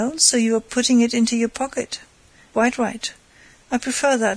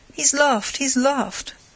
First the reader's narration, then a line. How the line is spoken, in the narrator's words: cried Lupin, jumping for joy